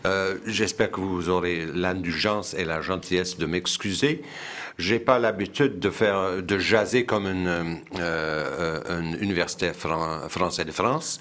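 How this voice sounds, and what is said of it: French with British and Québécois accent. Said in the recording (French): “je m'excuse pour mon français à l'accent britannique et québécois à la fois ... mon français est bien rouillé”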